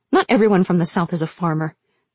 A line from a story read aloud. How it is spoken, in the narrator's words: she snapped